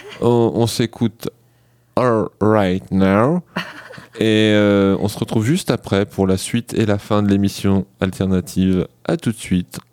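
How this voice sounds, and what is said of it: Put-on accent. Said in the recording (French): “le petit accent, je le refais”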